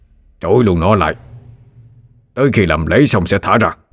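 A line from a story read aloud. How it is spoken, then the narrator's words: Shouting. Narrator (Vietnamese): Phan Văn Trung quát lên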